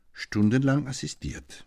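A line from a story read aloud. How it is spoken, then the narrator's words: Calm question. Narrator (German): fragte Lübbe ruhig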